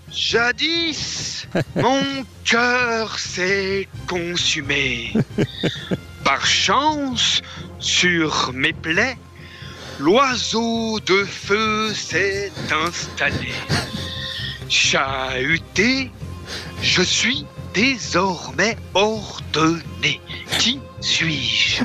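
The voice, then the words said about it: Imitates a riddle-master character's voice. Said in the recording (French): “l'imitation du père Fouras”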